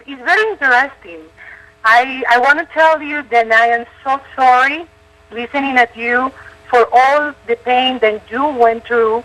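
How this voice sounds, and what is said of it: Non-native English accent. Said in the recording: “I'm sorry I have an accent. I hope you can understand me and everybody else can understand my accent.”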